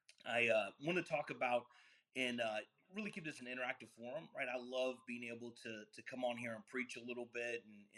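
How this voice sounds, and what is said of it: Raspy voice. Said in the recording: “my voice is a little rasp. I'm fighting Omicron”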